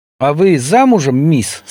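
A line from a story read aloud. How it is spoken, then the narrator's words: Calm question. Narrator (Belarusian): спакойна спытаўся ён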